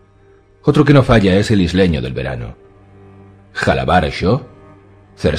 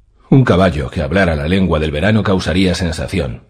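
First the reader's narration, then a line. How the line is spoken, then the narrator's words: Queen's dry reply. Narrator (Spanish): replicó la reina en tono seco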